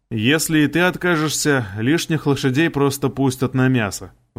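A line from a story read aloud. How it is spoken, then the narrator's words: Sigh. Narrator (Russian): вздохнул я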